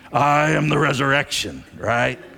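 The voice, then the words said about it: Imitates another person's voice. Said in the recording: “in this Arnold Schwarzenegger voice ... Terminator”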